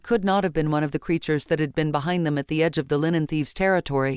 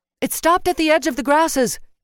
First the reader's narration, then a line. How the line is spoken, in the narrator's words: Yven called out